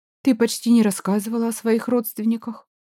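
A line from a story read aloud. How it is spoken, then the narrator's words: Quiet. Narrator (Russian): тихо произнесла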